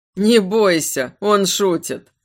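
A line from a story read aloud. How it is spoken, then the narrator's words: Laughing. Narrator (Russian): рассмеялся Лоран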